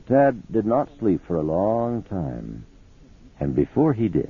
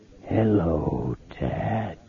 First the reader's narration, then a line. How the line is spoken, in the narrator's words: it whispered in its rotting voice